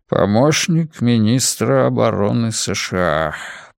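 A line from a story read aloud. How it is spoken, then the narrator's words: Mumbling. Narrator (Russian): промямлил он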